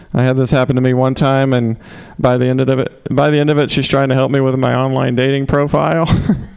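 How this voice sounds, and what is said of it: Southern US accent. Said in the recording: “your cute accent ... with your accent ... Southerners”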